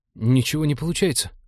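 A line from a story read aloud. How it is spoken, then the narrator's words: Nervous report. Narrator (Russian): доложил тот, испуганно косясь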